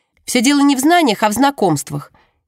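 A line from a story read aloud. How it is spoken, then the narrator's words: Abrupt declaration. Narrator (Russian): ни с того ни с сего заявляет Джемма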